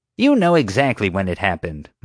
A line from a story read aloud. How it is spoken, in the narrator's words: Marge snapped